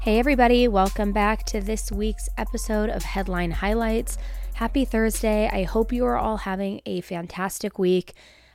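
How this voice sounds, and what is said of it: Raspy, under-the-weather voice. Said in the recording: “I am a little under the weather... my voice is raspier than usual”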